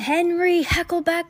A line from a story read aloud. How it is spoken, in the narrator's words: shouted